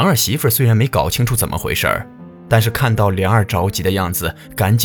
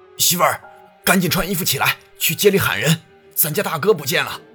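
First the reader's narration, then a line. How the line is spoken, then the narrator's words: Loud shout. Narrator (Chinese): 大声喊道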